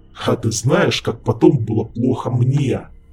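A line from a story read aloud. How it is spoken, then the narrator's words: Menacing growl, demon. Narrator (Russian): Угрожающе прорычал демон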